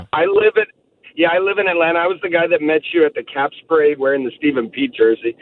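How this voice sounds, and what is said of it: Hoarse, strained voice. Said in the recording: “My voice is shot from the game yesterday”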